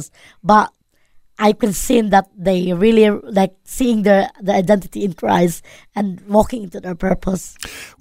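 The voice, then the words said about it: Filipino accent. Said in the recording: “the Filipino accent”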